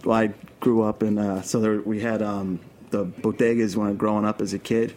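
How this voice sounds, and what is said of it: Brooklyn accent. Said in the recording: “your Brooklyn accent”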